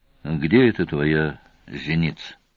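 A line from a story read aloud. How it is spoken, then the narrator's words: Very calm question. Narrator (Russian): очень спокойно спросил Сварог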